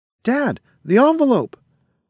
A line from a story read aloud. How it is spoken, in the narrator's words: cried out Martin